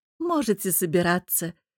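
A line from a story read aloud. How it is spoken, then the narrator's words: Laughing woman. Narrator (Russian): рассмеялась женщина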